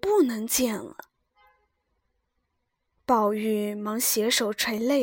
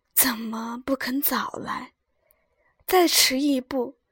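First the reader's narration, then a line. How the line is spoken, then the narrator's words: Weak strained sigh. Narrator (Chinese): 哼了一声，……勉强叹道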